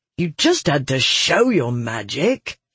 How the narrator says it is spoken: he growled

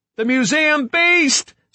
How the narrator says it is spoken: Somebody screamed

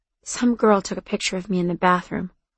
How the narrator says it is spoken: I said quietly

